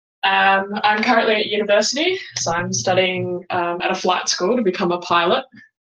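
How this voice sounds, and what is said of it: Australian accent. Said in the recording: “You might notice a bit of an accent, obviously, because as I said, I'm from Australia.”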